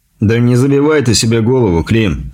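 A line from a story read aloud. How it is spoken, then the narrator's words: Laughing. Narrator (Russian): засмеялся Дикий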